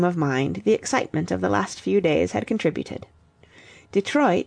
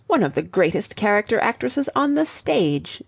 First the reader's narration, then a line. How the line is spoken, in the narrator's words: said Fillmore bitterly